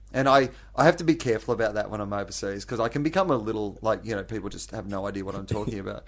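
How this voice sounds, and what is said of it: Australian accent. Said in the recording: “you have quite an Aussie accent”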